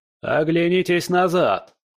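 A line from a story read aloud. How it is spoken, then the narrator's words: Fox shouting. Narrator (Russian): лис крикнул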